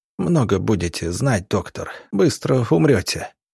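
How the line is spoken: Wounded hiss through teeth. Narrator (Russian): сквозь зубы прошипел раненый

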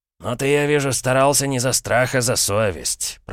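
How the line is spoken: Purring. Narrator (Russian): промурлыкал дядя

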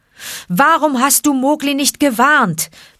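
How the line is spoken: Roared. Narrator (German): brüllte er den armen Balu an

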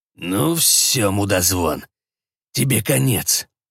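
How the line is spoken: Hiss. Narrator (Russian): прошипел Джим

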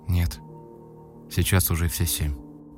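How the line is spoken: Barely audible. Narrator (Russian): чуть слышно ответила она

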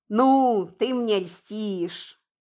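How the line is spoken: Pleased drawl. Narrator (Russian): довольно протянул Киря

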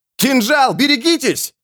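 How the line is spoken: Squire's shout. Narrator (Russian): оруженосец выкрикнул

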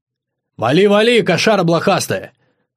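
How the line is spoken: Joyful shout. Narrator (Russian): радостно крикнул вслед барсу Андрюха

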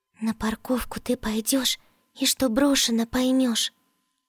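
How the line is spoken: Singsong whisper. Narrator (Russian): нараспев зашептала Джоа

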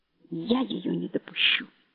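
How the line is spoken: Quiet. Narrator (Russian): говорит он тихо

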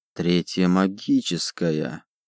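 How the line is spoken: Muttering. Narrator (Russian): пробормотал Ротверен

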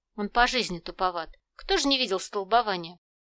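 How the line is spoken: Strained snort. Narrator (Russian): Торговец натянуто хмыкнул

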